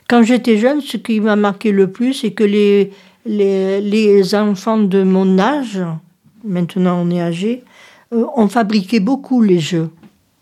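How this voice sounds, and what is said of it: Southern French accent. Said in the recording (French): “j'ai l'accent du midi”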